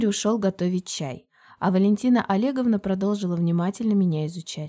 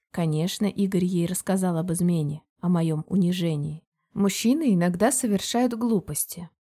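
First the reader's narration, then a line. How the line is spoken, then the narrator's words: Calm. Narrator (Russian): продолжала она спокойно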